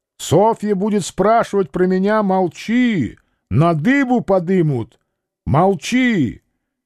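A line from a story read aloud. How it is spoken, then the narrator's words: Shouting through window. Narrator (Russian): Петр крикнул в окошко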